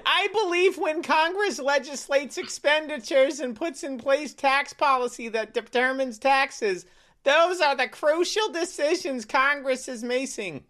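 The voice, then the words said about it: Imitates another person's voice. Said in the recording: “good Yellen impersonation ... That's actually really close.”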